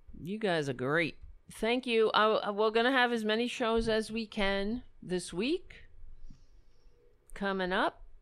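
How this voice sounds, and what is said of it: Hoarse, strained voice. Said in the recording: “I'm losing my voice, as I always do... Guys, I'm losing my voice... I'm having a hard time talking.”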